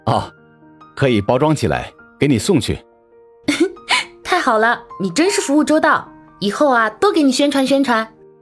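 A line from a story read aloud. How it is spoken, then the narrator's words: Laughing. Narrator (Chinese): 陈谷笑道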